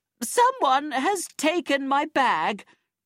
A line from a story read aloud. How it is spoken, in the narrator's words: she screamed